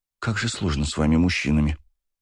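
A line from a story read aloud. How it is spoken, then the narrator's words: Sighing. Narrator (Russian): вздохнула Даша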